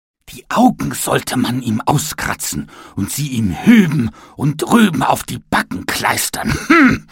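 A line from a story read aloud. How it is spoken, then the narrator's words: Furious shouting. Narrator (German): schrie er wütend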